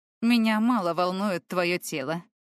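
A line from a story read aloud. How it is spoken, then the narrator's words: Snorting. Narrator (Russian): хмыкнул незнакомец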